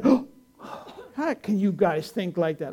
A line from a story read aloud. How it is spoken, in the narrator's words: he laughed